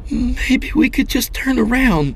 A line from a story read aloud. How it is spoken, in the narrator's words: she pleaded